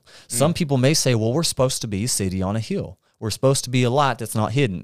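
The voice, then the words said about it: Put-on country accent. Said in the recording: “Do you see how I'm pulling out that country accent?”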